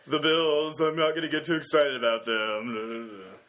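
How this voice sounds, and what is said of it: Downbeat, gloomy imitation of another person. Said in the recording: “my Joe Mead impression ... That's a good Joe Mead impression ... like totally, like a really downer Abed from Community”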